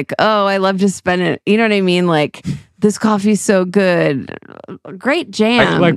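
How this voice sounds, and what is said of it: Condescending rocker-dude voice. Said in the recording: “That's my condescending impression of rock.”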